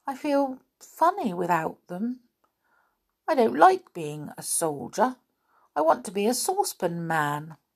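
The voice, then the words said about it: Sad character voice. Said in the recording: “said Saucepan in a sad voice.”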